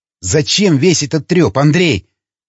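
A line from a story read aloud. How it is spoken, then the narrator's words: Exclamation. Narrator (Russian): воскликнул Ломака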